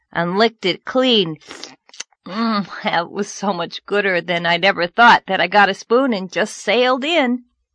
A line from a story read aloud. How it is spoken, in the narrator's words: Anne groaned